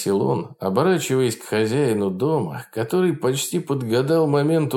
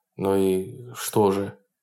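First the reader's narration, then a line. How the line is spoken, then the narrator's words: Muttering. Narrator (Russian): пробормотал Берс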